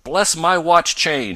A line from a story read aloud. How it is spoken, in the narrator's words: he suddenly cried